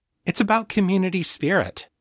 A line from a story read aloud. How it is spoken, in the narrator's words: Kate said cheerfully